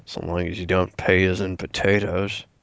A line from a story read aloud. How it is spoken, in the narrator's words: Rick just mumbles to himself